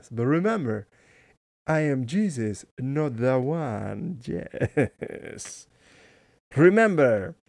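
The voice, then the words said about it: Put-on accent that sounds weird. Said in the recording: “I can't do the whole thing like that in that accent. That sounds weird.”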